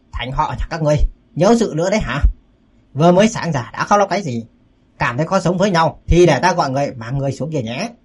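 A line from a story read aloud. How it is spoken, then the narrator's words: Loud question. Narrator (Vietnamese): Cao Cường lớn tiếng hỏi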